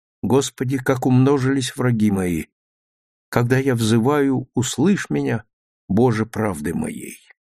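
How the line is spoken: Silent calm recitation. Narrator (Russian): про себя, внешне тоже спокойно, она прочитала

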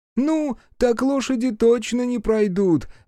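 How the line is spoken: Joyful peasants reporting. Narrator (Russian): радостно сообщили крестьяне

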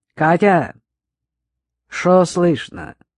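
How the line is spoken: Lazy question. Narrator (Russian): лениво спрашивала Циля

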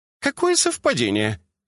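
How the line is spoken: Cheerful interruption. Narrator (Russian): весело оборвала его Джина на полуслове

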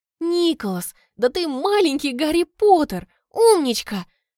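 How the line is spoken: Exclamation. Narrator (Russian): воскликнула я

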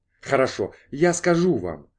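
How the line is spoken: Sharp. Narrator (Russian): резко начал Ленниган

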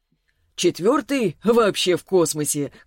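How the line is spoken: Chuckling. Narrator (Russian): хохотнул Селиванов

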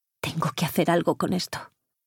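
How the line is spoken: Frustrated mutter to herself. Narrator (Spanish): masculló para sí frustrada

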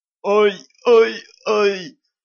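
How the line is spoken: Nasty thin fake moaning. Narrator (Russian): начал старательно стонать Ланс противным тоненьким голоском

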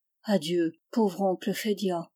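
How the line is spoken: Murmur. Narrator (French): il murmura

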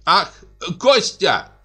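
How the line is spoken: Shout. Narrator (Russian): закричала она

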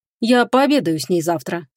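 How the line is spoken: Calm. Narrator (Russian): спокойно произнес Ричард

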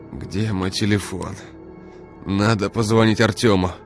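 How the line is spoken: Groaning. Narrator (Russian): простонал Игорь

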